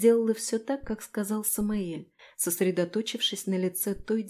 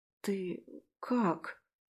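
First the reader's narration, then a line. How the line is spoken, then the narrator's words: Hesitant question. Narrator (Russian): Неуверенно поинтересовалась я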